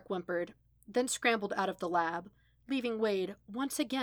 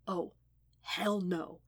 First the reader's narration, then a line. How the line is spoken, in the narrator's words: he whispered